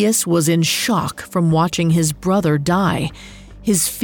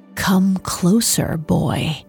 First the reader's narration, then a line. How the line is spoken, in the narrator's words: She whispered